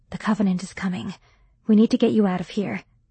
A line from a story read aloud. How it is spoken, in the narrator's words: close enough that onlookers would assume I was kissing his cheek, and whispered